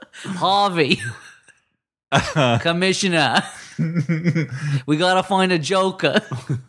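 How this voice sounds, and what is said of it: Put-on Boston accent. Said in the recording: “Beantown Batman ... Stupid accent.”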